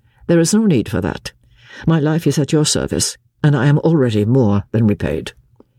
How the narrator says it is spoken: he said coldly

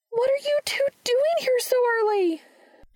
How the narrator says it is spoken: Charlie shouted

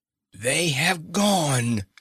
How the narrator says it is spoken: she cried

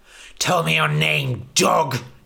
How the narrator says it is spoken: he spat

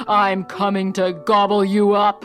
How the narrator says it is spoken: roared the troll

